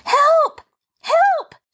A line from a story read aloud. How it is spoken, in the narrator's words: she screamed